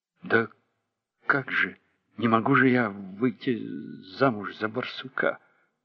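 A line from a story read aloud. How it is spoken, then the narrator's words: Mutter. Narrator (Russian): пробормотала Михо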